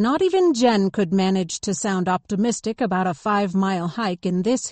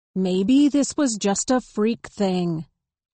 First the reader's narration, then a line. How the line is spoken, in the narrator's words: Jen said